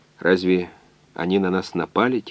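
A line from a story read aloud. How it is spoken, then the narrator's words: Quiet. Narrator (Russian): тихо сказал доктор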